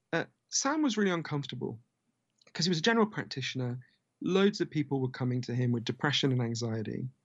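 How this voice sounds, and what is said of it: Posh British English accent. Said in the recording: “a very poor part of London, where I'm from, as you can tell from my weird Downton Abbey accent”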